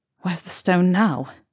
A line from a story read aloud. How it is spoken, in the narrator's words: Harry whispered